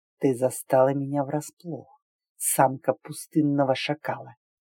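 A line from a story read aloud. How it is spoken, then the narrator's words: Quiet mumble. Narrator (Russian): Тихо пробормотал Рифах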